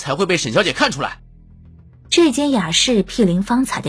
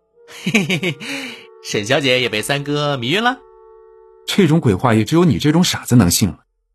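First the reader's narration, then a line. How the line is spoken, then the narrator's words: Teasing laugh. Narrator (Chinese): 季雨舒促狭地笑道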